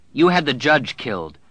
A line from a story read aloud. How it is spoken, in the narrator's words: she said harshly